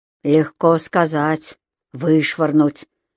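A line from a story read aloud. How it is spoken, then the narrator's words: Gloomy grumble. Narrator (Russian): мрачно пробурчал Матис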